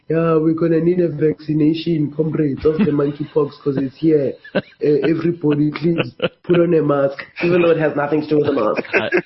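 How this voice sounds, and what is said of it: Mock South African government official accent. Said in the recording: “Don't you love that accent? ... you know exactly who I'm talking about when I speak like that ... Government.”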